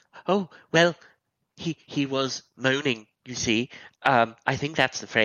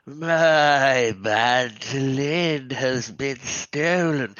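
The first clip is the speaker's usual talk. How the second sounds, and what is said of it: Moaning imitation of another person. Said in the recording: “moaning ... my best impersonation of him”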